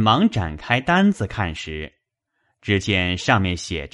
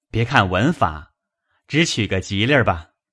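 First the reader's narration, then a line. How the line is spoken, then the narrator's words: Quick laugh. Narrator (Chinese): 贾蓉也忙笑道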